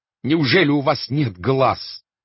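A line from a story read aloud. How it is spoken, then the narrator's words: Shouting. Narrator (Russian): кричал астроном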